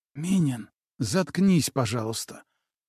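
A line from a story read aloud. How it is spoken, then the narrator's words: Whispered request. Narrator (Russian): также шепотом попросила его Василиса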